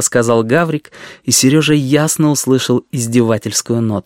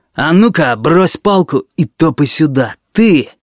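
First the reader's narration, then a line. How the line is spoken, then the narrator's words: Harsh angry voice. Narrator (Russian): совсем другим голосом, резким и злым, он сказал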